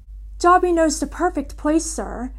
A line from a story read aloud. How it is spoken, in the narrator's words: he said happily